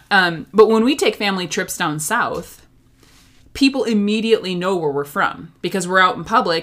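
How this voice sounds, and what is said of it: Minnesotan northern Midwest accent. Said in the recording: “I have a pretty prevalent northern accent ... accentuate my O's and my A's ... my Minnesotan accent”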